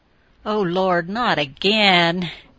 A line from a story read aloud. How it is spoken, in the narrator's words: groaned to the cats